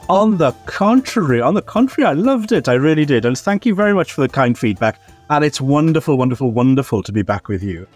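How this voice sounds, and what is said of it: Welsh accent. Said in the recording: “your voice ... wonderful, charming Welsh historian ... It's all in the accent”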